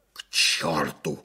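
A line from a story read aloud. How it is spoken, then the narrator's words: Hoarse rasp. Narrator (Russian): захрипел майор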